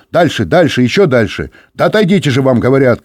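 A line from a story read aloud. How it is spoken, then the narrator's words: Shouting. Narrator (Russian): крикнул он Юре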